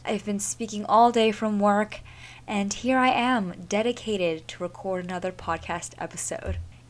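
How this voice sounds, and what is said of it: Hoarse, sick voice with sore throat. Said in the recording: “tell from my voice already, but I am very, very sick... I have a sore throat... how throaty that is”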